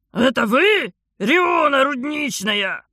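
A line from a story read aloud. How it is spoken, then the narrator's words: Restrained, holding back a shout. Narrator (Russian): Подавив соблазн завопить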